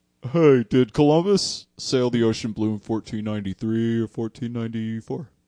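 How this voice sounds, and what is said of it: Put-on voice unlike his own. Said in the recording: “I'm just doing a voice that's different from mine”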